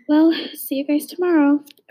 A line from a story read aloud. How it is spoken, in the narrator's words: Aurora sighed